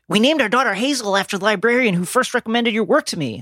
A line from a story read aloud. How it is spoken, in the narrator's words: Alana says